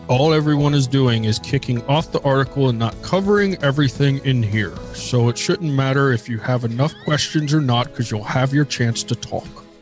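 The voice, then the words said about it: Imitates another person's voice. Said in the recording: “my best Rocco impression”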